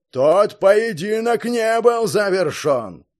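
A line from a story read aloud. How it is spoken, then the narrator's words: Thundering voice. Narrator (Russian): Прогремел Белиар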